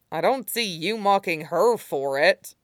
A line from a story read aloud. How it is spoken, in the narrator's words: the swordsman grumbles